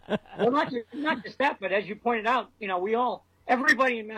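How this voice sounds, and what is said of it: Usual voice. Nothing is said of it.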